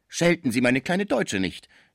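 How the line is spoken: Called out. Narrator (German): rief Schmucke

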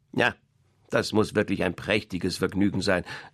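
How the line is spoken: Mocking hen. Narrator (German): sagte das Huhn spöttisch

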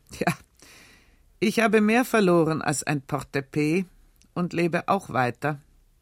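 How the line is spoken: Bitter laughing speech. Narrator (German): mit einem bitteren Lachen sagte er

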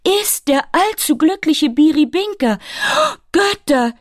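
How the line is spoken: Dismayed milkmaid's scream. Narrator (German): schrie das Milchmädchen, ganz bestürzt

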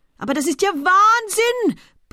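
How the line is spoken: Continuous roaring. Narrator (German): brüllte der Samenhändler in einem fort

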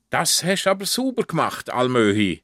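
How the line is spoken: Calls out, relieved. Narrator (German): ruft erleichtert

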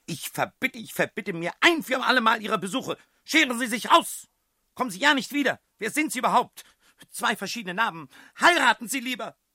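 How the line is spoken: Very loud shout. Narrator (German): schrie ganz laut

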